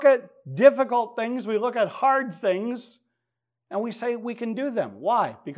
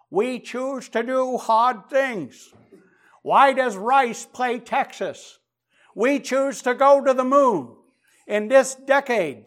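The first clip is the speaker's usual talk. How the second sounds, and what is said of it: Poor imitation of New England accent. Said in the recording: “apologies to any New Englanders for my poor attempt at JFK's accent”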